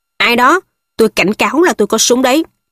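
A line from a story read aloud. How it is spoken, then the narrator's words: Shouted. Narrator (Vietnamese): Ông quát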